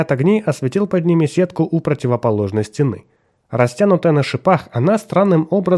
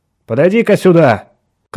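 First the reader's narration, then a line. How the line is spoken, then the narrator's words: Shouted. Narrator (Russian): крикнул он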